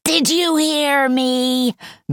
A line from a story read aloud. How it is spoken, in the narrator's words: the witch queen screamed